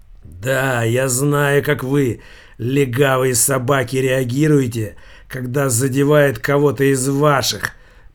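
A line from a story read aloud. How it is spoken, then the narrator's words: Hoarse wheeze. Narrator (Russian): прохрипел булавка Савиньи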